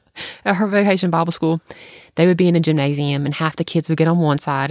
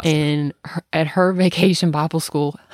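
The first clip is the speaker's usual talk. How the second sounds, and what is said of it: Slipping into a Georgia accent. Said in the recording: “oh my gosh, I just sunk into the accent... I heard it, Bible.”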